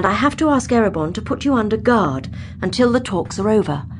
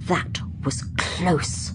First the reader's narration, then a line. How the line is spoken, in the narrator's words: Atrika hissed